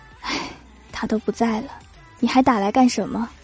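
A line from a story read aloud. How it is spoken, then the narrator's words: Sudden low sad voice. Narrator (Chinese): 突然压低声音，悲伤的说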